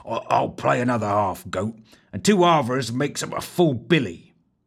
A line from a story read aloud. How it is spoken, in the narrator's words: grumbled